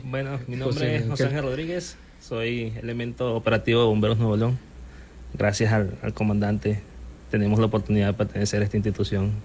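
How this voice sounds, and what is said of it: Venezuelan Spanish accent. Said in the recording (Spanish): “van a reconocer el acento seguramente ... Yo soy de Venezuela. ... del estado de Anzoátegui.”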